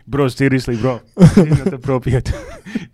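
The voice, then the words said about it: Imitates another person's voice. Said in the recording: “my accent that you give me ... I still do the same voice”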